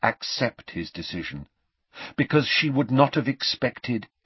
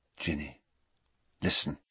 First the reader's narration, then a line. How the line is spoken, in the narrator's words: said very quietly, as the buzz of conversation grew louder around them